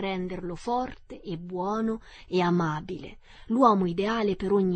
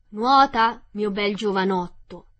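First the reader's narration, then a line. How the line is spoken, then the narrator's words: Old man shouting. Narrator (Italian): gli gridò mio nonno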